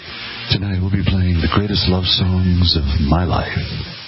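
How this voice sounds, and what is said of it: Mellow late-night jazz DJ voice. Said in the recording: “He's being all very mellow jazz DJ tonight.”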